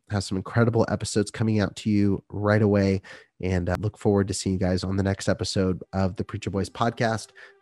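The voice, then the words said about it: Sick-sounding voice. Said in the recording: “I apologize for my voice. ... I'm trying to get over being sick”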